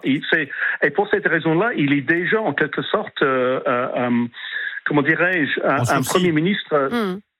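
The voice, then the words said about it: British accent speaking French. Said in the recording (French): “Citoyen britannique. Il faut le préciser, d'où votre accent”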